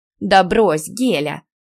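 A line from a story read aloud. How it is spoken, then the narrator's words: Snorting. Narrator (Russian): фыркнула Ника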